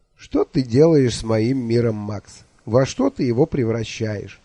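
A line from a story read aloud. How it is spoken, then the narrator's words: Question through laughter. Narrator (Russian): Сквозь смех спросил почтеннейший начальник малого тайного сыскного войска города Эхо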